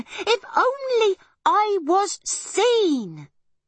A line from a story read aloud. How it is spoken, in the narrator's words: cried Arietti